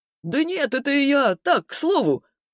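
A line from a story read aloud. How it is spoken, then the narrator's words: Good-natured laugh. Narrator (Russian): Мужик все так же добродушно рассмеялся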